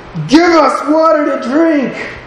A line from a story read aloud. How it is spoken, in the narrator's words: they're protesting and screaming at Moses and grumbling and complaining